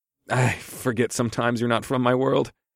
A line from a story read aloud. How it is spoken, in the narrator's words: I chuckled